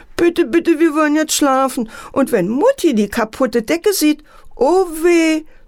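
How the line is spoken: Sobbing. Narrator (German): schluchzte Antje

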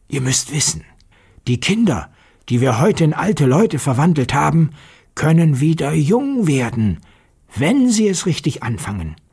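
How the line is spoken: Quiet voice. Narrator (German): sprach mit leiser Stimme

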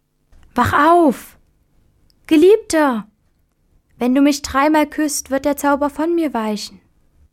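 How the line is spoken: Fairy calling to beloved. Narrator (German): kam die schöne Fee, erblickte ihren Geliebten und rief

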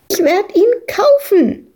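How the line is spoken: Shrieking over someone. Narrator (German): kreischte Madita dagegen an

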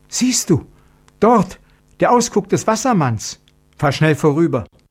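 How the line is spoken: Sudden frightened cry. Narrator (German): rief sie in plötzlichem Schrecken

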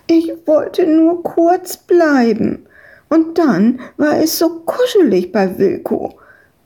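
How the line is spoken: Whining. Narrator (German): jammerte Madita

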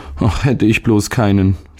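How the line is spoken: Sighing boy. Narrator (German): seufzte der Junge

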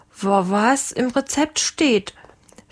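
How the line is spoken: Stuttering. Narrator (German): stotterte der Lange

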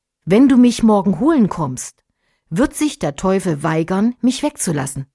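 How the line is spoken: Plain. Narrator (German): sagte er

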